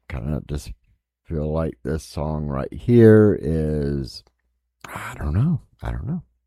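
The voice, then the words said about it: Southern American accent. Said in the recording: “don't let the southern accent mess that up”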